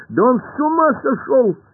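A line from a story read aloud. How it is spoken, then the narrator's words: Shout. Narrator (Russian): закричал Пашка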